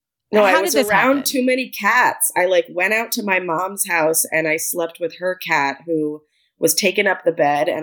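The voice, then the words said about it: Congested voice from a cold. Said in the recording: “I have a cold. I'm sorry for my voice.”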